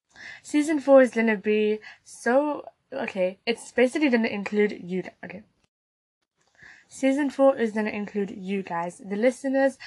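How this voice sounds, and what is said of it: Slightly sick-sounding voice. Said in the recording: “I'm still a little bit unwell, you might hear it in my voice”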